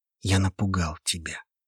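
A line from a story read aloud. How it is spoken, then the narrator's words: Quiet, confident voice. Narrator (Russian): тихо, но с уверенностью проговорил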